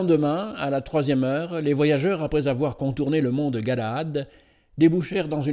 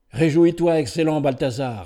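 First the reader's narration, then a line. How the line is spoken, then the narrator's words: Plain. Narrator (French): dit Ben-Hur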